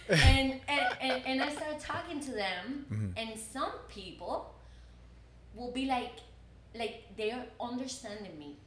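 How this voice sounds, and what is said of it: Hispanic-accented English. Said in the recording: “my English is not very good looking ... I have my accent, of course ... Because I have my accent and because I'm not American ... because she's Hispanic”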